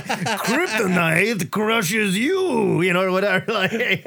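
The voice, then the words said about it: Exaggerated bad Russian accent. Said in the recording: “accent. Can't stand it. It's so bad. It is the worst. ... it's like Alison Brie doing, like, her Russian accent in Glow.”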